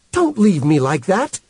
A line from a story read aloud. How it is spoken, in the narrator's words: she said fiercely